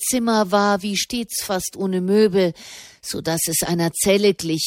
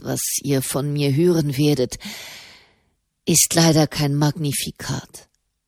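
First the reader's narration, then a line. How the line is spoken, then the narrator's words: Sighed. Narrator (German): seufzte der Papst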